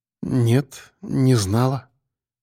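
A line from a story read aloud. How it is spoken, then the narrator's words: Quiet reply. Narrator (Russian): тихо ответила она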